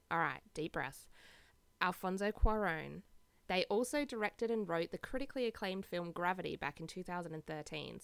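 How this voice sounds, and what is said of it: Australian accent. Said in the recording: “my gross Aussie accent”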